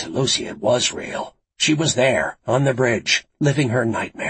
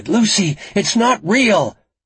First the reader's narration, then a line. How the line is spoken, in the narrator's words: Frankie shouted